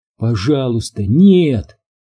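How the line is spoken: Silent inner plea. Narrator (Russian): мысленно взмолилась она

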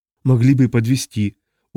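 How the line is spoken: Glum remark. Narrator (Russian): уныло заметил брат Сейл

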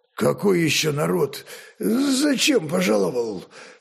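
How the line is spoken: Hoarse, sleepy voice. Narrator (Russian): хрипловатым с просонья голосом спросил гроза

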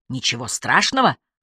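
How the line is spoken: Bark. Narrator (Russian): рявкнул Спивак

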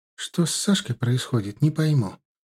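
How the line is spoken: Quiet complaining. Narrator (Russian): жаловалась мне тихонько Инна

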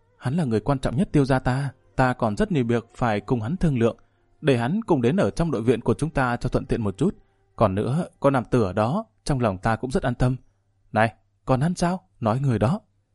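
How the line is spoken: Soft, thoughtful. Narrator (Vietnamese): Đại tiểu thư trầm tư một lúc khẽ nói

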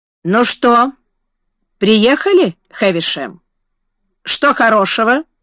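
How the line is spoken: Plain. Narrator (Russian): спросил он

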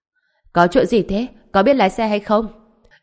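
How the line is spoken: Cold barking shout. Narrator (Vietnamese): Ông ta lạnh giọng quát

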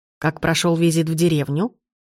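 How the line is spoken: Plain. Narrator (Russian): спросила она

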